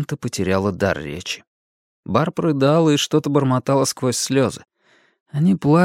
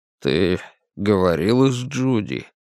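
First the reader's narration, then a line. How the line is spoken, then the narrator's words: Forced out. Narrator (Russian): Мэтти выдавила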